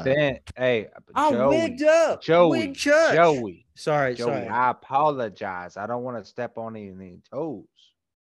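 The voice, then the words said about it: Impression of an elderly Pennsylvanian's voice. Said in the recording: “That's every elderly black person in Pennsylvania right there. That's a good impression.”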